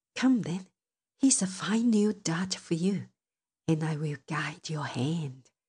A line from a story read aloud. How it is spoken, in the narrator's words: whispered wicked Loki